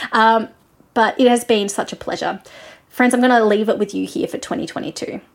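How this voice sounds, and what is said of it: Australian accent. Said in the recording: “Thank you for listening to my accent ... I'm more than happy to be your Australian friend”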